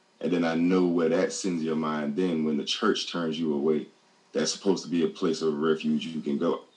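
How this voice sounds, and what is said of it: Emotional, strained voice. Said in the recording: “I'm getting emotional talking about it because it hurts”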